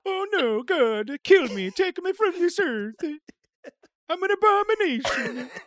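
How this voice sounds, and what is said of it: Silly put-on character voice. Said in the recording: “to do a stupid voice.”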